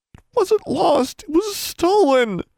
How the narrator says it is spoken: Darla whined

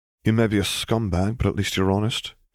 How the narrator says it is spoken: he sighed

